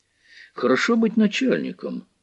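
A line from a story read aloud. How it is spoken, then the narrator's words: Sighing. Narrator (Russian): вздохнул Станислав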